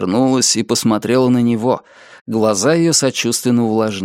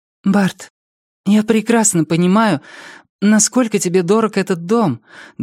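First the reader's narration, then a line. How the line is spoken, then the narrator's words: Trembling voice. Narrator (Russian): дрогнувшим голосом сказала она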